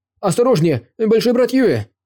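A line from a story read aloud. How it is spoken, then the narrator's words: Alarmed warning shout. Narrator (Russian): крикнул Дагоу Цзи, увидев очень быстрого зомби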